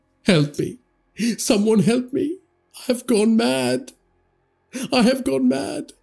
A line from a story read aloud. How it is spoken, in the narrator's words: Tariq dropped the knife to the floor and clutched at the sides of his head and wailed